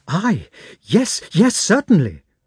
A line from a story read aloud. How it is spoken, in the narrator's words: cried Petya, blushing almost to tears